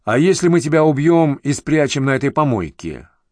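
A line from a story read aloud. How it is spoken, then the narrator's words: Snide question. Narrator (Russian): ехидно спросил Шилов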